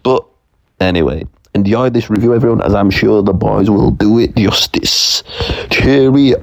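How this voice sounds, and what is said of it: Thick British accent. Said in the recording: “his thick British accent”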